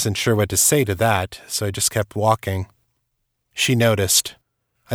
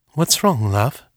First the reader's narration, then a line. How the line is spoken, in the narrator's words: Her tone was gentle, searching